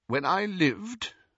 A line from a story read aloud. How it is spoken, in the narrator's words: she said stiffly